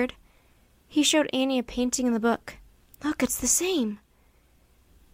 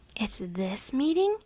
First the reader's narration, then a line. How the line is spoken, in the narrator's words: Annie whispered